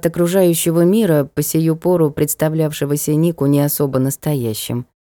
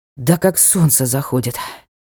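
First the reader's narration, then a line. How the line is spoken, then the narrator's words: Exhaled. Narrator (Russian): Выдохнул он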